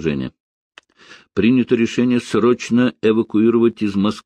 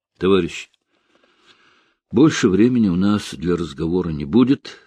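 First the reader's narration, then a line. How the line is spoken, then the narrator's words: Calmer. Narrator (Russian): сказал он в заключении более спокойно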